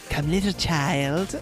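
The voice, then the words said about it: Nasally imitated witch character voice. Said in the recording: “you do a little impression of Sarah ... she has like this like weird nasally quality to her voice”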